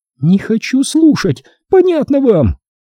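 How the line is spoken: Shrill childish wail. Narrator (Russian): завопила она тонким детским голоском

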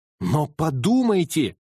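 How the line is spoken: Passionate exclamation. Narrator (Russian): горячо воскликнул я

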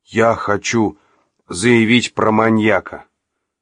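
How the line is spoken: Exhausted gasp. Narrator (Russian): выдохнул Олег, собрав последние силы

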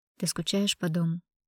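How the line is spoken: Quiet question. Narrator (Russian): негромко поинтересовался Филипп

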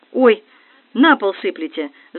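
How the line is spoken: Caring exclaiming. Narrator (Russian): заботливо воскликнул парень

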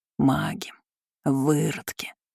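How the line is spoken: Growl. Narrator (Russian): рыкнул Мороз

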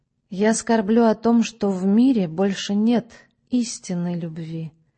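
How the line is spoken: Gloomy. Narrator (Russian): мрачно сказала она

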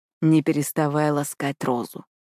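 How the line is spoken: Gentle command. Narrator (Russian): мягко приказывает он

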